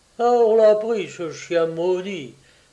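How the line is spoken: Chief's exclamation. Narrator (French): s'exclamait le chef moustachu

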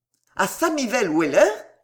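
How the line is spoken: Father exclaiming. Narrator (French): s'écria le père

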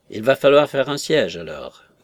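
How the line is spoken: Grumbling. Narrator (French): grommela-t-il

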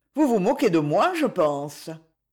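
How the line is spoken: Displeased tone. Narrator (French): Acton dit d'un ton mécontent

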